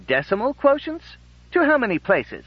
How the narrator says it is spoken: Programmer Schumann tried to keep his tone casual

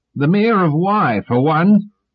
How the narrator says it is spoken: said Cleon, suddenly shouting

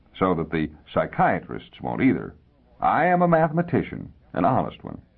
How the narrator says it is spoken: the little man chuckled dryly

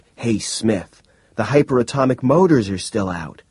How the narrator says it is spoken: he cried in sudden shock

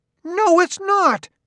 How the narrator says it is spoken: shouted Grimianus

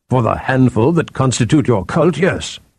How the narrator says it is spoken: Athor snapped

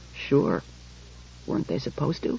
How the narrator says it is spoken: He said in a low voice

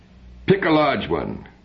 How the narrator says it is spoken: cried Gilbert

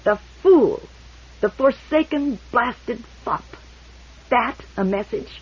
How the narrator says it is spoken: Barr cried bitterly

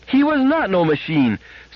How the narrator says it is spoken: screamed Gloria, fiercely and ungrammatically

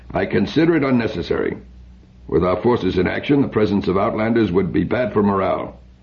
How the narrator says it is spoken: The major said dryly

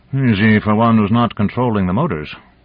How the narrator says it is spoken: growled Dezhnev

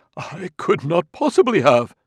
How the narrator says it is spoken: Amadiro said in a choking voice

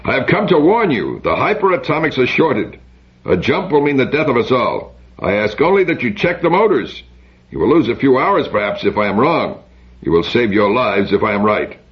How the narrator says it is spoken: Biren shouted

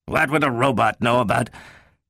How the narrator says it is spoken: caught himself with a gasp

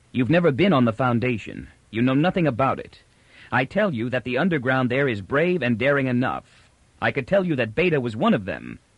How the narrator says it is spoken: said coldly

